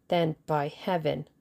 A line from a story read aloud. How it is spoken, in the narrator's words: snarled the Russian